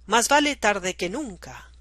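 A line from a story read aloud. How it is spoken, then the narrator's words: Exclaiming. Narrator (Spanish): El presidente, sacudiendo su cejijunta cabeza, exclamó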